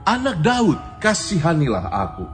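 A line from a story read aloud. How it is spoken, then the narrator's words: Louder and louder cry. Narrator (Indonesian): semakin keras ia berseru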